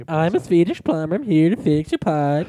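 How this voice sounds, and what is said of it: Put-on Swedish accent. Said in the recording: “That's a good accent.”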